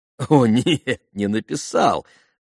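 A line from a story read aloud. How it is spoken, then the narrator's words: Laughing. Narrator (Russian): засмеялся Иван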